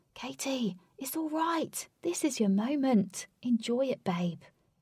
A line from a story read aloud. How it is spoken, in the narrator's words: Lynx whispered